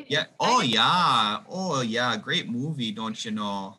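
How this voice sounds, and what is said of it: Exaggerated Wisconsin Fargo-style accent. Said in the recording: “That accent's not much of a stretch for you... when I get back into Wisconsin... the accent just pours right out”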